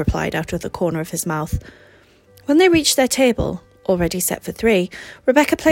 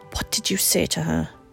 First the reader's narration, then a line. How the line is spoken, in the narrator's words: Mary hissed in an undertone